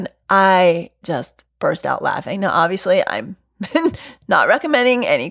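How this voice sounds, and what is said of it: Usual voice. Nothing is said of it.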